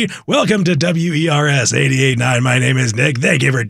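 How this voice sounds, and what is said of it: Usual voice. Nothing is said of it.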